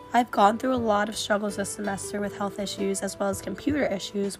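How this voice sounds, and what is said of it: Sick, strained voice. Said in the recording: “apologize for my voice, as lack of sleep, stress, and buildup of schoolwork has combined with the cold and flu season and has caused me to be sick”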